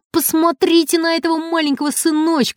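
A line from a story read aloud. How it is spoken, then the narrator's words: Yelled. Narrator (Russian): заорал Макар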